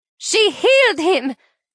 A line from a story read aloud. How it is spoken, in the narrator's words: yells